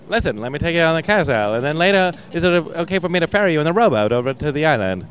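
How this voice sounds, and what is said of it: Put-on transatlantic accent. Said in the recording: “they talk like this, like in an old, like a, yeah. With a transatlantic accent.”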